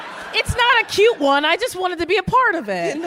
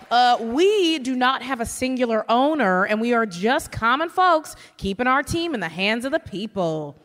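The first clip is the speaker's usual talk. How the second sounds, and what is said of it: Put-on regional accent, not nasal enough. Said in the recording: “The accent. I take umbrage with that accent. ... You gotta be a little more nasally. ... That's how we talk.”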